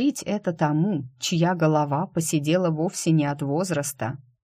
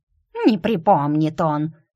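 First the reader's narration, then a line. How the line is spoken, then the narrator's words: Grumbling squirrel. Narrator (Russian): пробурчала белка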